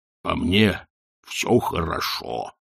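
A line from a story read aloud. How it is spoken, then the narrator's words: Grumbled. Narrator (Russian): буркнул он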